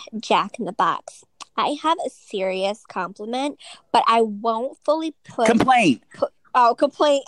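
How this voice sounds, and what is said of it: Imitates another person's voice. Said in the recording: “I'm going to say it like Kim would ... What is that accent? ... I don't even sound like her.”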